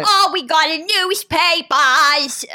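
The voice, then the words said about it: Imitated New York Newsies accent. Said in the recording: “did you use the accent? ... they got New York accents.”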